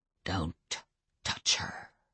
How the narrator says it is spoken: whispered Adam

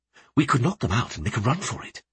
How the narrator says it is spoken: he whispered

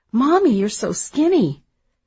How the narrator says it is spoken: they cried out

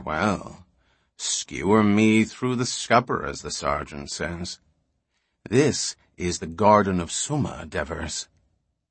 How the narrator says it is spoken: he murmured

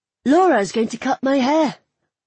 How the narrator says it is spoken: I blurted out

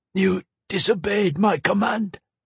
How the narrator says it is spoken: she rasped

